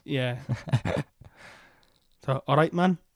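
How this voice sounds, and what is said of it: Poor attempt at an Irish accent. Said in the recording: “That wasn't an Irish accent, was it? ... I'm terrible with accents”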